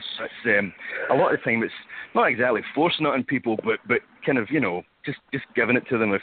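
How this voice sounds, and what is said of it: Scottish accent. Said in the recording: “your accent, it sounds, are you Scottish? Is that the accent? ... Yes, well spotted.”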